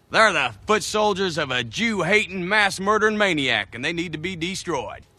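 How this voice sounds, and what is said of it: Actor's Southern Tennessee accent. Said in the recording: “Southern accent. ... Brad Pitt, Inglourious Bastards. ... Tennessee accents and Southern accents in general have something called goose fronting ... He doesn't really get that.”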